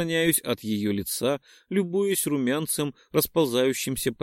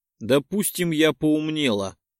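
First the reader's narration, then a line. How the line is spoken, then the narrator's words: Irritated snort. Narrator (Russian): раздраженно фыркнула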